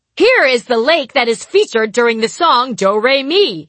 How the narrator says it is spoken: he screamed

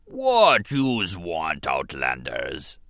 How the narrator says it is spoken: Bas Nass rumbled at them

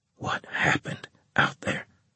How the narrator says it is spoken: He asked me, his voice barely above a whisper

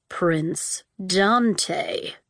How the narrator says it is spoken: the murdered king said slowly

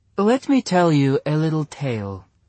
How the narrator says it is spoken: she said sweetly

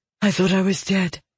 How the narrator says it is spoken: she breathed

